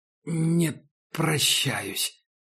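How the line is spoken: Forced out. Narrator (Russian): выдавил Макс

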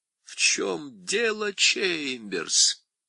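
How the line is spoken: Almost tender question. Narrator (Russian): спросил он почти ласково

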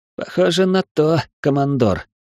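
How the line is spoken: Grim, through teeth. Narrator (Russian): мрачно процедил Майки

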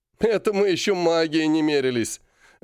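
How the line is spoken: Joyful. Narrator (Russian): радостно подхватил Серый

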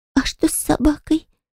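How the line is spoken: Shocked whisper. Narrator (Russian): прошептала явно потрясённая моим рассказом Кара

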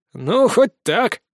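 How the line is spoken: Snort. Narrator (Russian): хмыкнул Фома

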